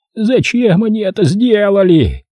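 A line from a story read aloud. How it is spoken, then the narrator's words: Shouting. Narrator (Russian): кричал он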